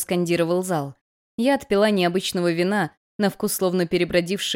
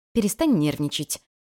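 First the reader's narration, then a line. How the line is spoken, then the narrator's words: Grimacing hiss. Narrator (Russian): чуть кривясь прошипела Ронарика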